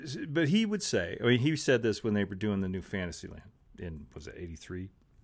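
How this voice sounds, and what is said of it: Usual voice. Nothing is said of it.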